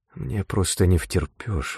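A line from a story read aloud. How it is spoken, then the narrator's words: Breathless exhale. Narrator (Russian): выдохнула она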